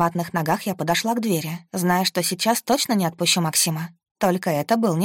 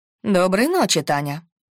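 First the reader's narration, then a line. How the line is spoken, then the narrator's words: Cold greeting. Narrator (Russian): Холодно поприветствовала меня Лена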